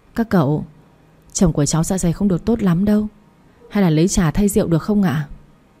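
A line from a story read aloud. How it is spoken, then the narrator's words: Softly. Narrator (Vietnamese): khẽ nói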